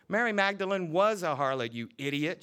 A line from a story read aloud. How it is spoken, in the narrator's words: cried